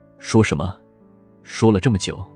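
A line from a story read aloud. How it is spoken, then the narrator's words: Low voice near ear. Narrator (Chinese): 厉天晴……在他的耳边低声道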